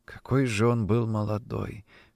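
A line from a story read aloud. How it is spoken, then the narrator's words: Whispering elderly woman. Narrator (Russian): шептала одна пожилая женщина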